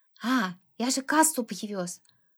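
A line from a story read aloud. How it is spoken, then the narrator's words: Whispered. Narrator (Russian): сказал шепотом Фима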